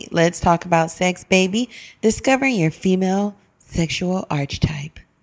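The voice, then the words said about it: Sultry, sexy voice. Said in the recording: “That was my sexy voice.”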